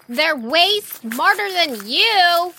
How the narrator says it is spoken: she shouted after them

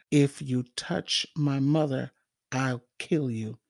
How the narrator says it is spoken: said softly

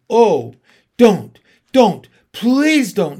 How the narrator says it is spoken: shouted Edmund

